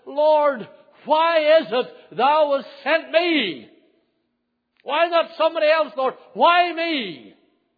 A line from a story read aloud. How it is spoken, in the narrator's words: every preacher worth his salt has cried